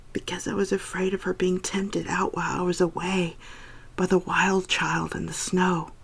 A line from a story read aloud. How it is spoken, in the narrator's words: whisper